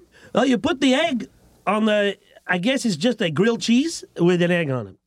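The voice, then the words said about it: Exaggerated put-on accent. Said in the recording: “this ridiculous accent that I'm doing”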